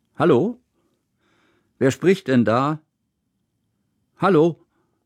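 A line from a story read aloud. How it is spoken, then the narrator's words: Loud echoing voice. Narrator (German): Laut hallte Kusmins Stimme durch den Raum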